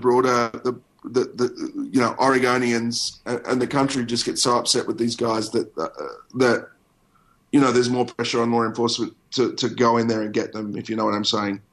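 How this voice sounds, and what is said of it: Hoarse voice giving out, cold. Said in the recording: “my voice started to give out. I've got a bit of a cold.”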